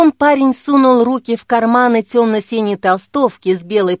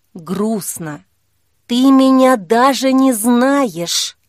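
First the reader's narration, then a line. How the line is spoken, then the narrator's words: Whisper. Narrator (Russian): прошептала Кира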